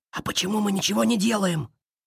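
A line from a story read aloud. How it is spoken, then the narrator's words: Whispered question. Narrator (Russian): шепотом спросил Тоин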